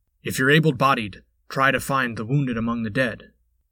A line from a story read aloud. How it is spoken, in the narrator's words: he called out